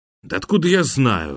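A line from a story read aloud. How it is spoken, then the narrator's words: Irritated man. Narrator (Russian): раздраженно отозвался мужчина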